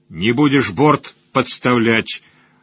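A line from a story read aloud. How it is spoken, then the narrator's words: Low booming drone. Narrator (Russian): прогудел Оладьи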